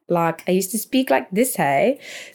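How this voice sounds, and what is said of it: Put-on South African accent. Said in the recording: “I used to have a full South African accent ... really South African”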